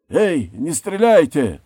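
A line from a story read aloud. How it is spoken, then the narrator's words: Shout into darkness. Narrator (Russian): крикнул он в темноту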